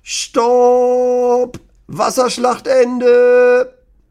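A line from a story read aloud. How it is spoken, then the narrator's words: Very loud call. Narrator (German): ruft Lennys Papa ganz laut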